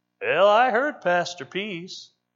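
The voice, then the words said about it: Imitation of Brother Kelly. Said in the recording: “in the classic Brother Kelly way, I can do a pretty good Brother Kelly imitation.”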